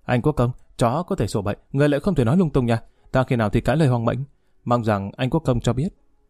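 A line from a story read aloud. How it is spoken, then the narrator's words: Feigned fear. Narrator (Vietnamese): Lý Kỳ ra vẻ sợ hãi nói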